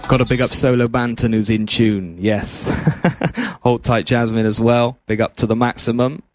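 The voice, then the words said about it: Bristolian accent. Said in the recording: “the Bristolian accent... my Bristolian twang”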